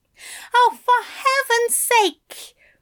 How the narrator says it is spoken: Aziraphale cried

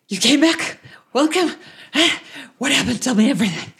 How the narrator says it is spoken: a panting Toriel, and he's like

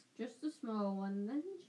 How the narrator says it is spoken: she chuckled

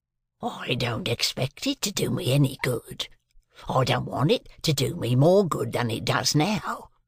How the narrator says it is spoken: said my convict, with a greedy laugh

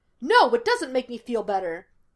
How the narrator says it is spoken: Gus snapped

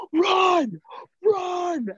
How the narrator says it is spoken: somebody yell

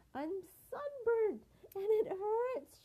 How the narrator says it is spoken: she cried

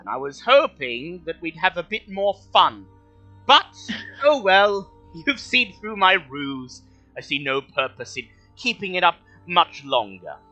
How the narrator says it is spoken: The dwarf who calls himself Barok giggles again, and he says

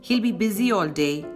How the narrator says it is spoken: the secretary snapped

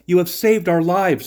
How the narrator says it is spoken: they exclaimed

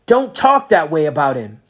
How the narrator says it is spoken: Max shouted

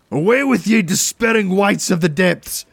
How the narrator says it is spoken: I roared

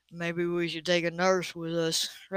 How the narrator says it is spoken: Ray muttered

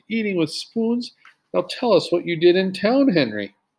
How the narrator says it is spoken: cried Jesse

